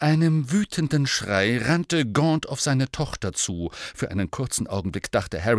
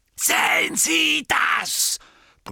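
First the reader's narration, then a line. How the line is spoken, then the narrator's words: Roared. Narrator (German): brüllte er Ogden an, während Marrop würgte und nach Atem rang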